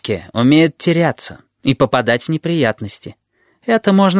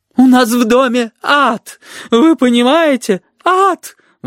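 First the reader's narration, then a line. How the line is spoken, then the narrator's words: Sobbing exclamation, woman. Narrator (Russian): восклицала женщина, не переставая всхлипывать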